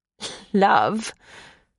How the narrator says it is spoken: Sabrina attempted to laugh, but the sound rang false even to her own ears

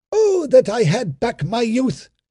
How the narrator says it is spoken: he cried

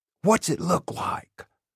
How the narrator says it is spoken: he whispers

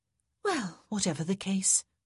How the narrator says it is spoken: said with a happy sigh

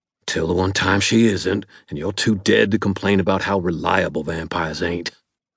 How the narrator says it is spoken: Ebenezer growled

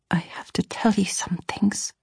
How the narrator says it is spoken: I whispered

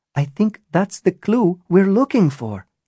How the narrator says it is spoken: Natasha said excitedly

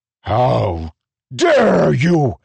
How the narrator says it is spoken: Ruthar roared

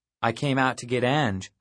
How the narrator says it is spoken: said, trying to keep my tone neutral

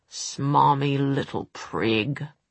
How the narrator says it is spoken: Will snarled

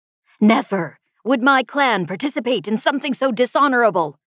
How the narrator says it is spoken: he shouted

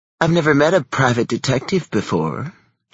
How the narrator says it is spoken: she cooed at me

